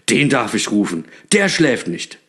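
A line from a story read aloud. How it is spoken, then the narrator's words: Delighted call. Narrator (German): rief Knecht Ruprecht erfreut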